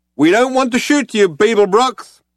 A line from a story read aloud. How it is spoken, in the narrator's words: shouted the figure